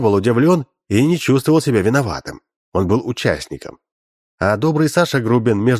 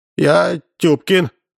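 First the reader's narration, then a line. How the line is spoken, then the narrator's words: Frightened. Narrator (Russian): сказал испуганно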